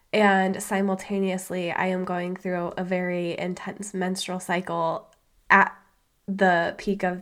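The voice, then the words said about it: Sick, congested-sounding voice. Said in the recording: “As you can probably tell from my voice, I am feeling under the weather right now ... this respiratory virus that is in my chest and my head”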